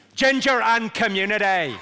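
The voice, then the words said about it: Put-on Belfast accent. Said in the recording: “This is the phrase I use to get the Belfast accent right.”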